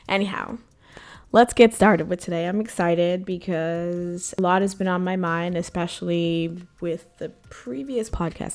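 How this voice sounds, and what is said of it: Sick-sounding voice. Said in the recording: “You're going to have to forgive my voice this week. I picked up a bit of a seasonal transition cold.”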